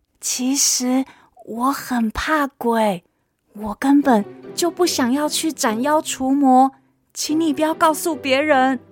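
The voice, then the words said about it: Whispered, quiet voice. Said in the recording (Chinese): “小声说”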